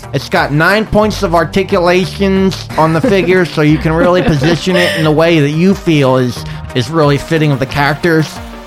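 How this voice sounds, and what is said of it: Nerdy put-on voice. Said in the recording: “do my nerd voice”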